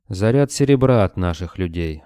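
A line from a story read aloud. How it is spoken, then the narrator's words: Plain. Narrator (Russian): ответил Георг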